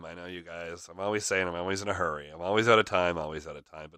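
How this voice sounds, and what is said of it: Nasal, congested voice. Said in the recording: “my voice is a little nasally again. It's a little allergy season here.”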